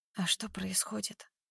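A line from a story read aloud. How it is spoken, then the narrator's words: Barely audible whisper. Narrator (Russian): Шепчу едва слышно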